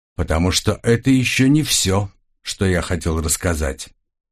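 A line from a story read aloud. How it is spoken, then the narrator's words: Grumbling. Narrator (Russian): проворчал Крас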